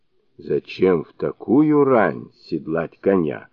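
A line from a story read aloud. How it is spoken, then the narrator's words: Sleepy mumble. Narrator (Russian): пробурчал он с просонья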